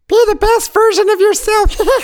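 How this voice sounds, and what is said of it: Elmo character voice. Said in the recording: “I could do an Elmo voice. ... Do Elmo”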